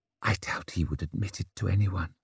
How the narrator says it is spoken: murmured Savine

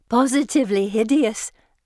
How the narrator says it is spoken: Anne says, giggling

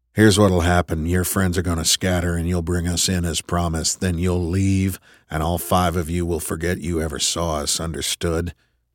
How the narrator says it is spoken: Tripp kept his voice level

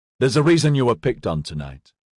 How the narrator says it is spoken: Ediard said coldly

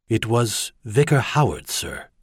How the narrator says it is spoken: he said softly

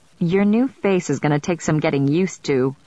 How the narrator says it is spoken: I said, laughing

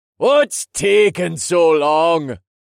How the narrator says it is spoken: called out

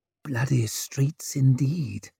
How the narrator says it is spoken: murmured Orso

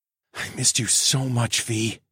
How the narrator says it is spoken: I whispered

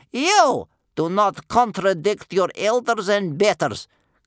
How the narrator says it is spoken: cried sternly

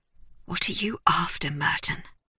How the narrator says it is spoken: murmured

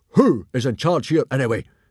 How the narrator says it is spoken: He roared

